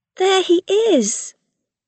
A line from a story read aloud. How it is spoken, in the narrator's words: Rilla cried